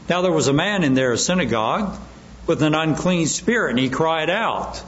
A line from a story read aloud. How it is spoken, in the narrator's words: the demon cried out, saying